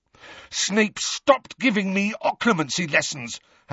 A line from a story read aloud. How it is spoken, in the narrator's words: Harry snarled